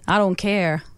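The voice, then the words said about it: Weak attempt at American accent. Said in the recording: “I've been trying to work on my American accent. ... Well, obviously not. ... Yeah, it's not great.”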